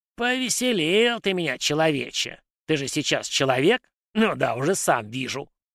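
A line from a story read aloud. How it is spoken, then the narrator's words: Creaky forest-spirit voice. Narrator (Russian): проскрипел леший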